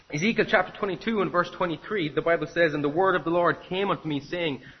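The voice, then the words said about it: Irish Cork accent, fast speech. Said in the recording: “if I'm speaking fast in my Cork accent”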